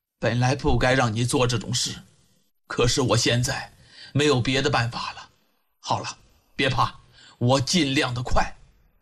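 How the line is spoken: Low tender voice. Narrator (Chinese): 李元芳爱惜的…低声的对韩冰说

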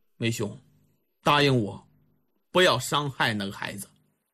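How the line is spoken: Soft sigh. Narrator (Chinese): 李元芳把脑袋也摇了摇，轻声的叹了口气

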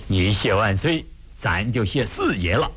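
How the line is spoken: Grinning, laughing. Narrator (Chinese): 鄂伦岱笑得咧着嘴说

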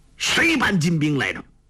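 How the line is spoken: Angry. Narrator (Chinese): 韩宝驹怒道

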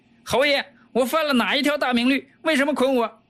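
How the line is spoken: Interpreter shouting loudly. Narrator (Chinese): 国王翻译官大叫起来

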